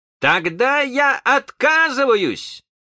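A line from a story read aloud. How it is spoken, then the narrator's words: Shout. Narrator (Russian): крикнул он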